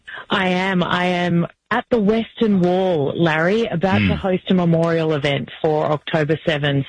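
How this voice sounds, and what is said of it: Distinctive Australian accent. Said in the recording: “I can't quite pick up the accent. Are you from New Jersey? Because it's very distinctive. ... Australia is the New Jersey of the Southern Hemisphere.”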